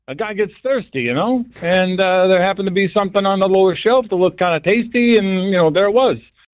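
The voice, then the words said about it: Raccoon character with New York accent. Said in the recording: “that raccoon is from Virginia, but he's got a New York accent.”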